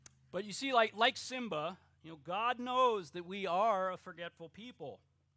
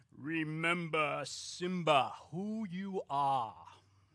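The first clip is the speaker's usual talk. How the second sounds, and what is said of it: Deep authoritative James Earl Jones Mufasa impression. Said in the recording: “this deep, comforting, yet authoritative voice of Mufasa himself ... James Earl Jones, that's the best impression I got.”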